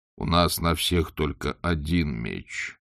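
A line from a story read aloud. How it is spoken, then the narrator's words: Gloomy. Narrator (Russian): мрачно промолвил Моркоу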